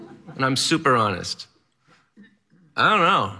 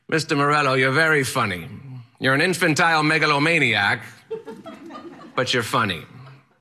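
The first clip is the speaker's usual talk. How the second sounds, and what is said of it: Strange, eccentric accent. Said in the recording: “He has a strange, eccentric accent, and he yells at me”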